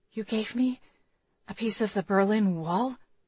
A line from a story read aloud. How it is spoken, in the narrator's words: I whispered